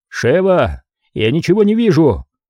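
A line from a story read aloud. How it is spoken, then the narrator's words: Shouted. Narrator (Russian): крикнул ей Крис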